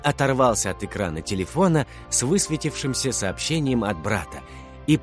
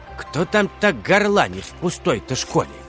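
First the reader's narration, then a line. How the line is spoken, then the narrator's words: Grumbling cleaner from below. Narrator (Russian): проворчала уборщица внизу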